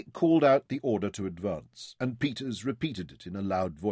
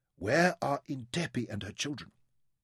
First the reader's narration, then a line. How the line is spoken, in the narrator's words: she whispered to Zama